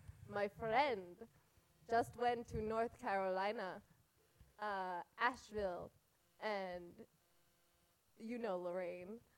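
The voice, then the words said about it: Put-on Israeli accent. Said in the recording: “I need to do this in an Israeli accent.”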